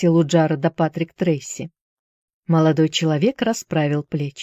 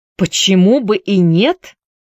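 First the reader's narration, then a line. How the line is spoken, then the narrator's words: Indignant repetition. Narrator (Russian): повторил возмущенно Трейси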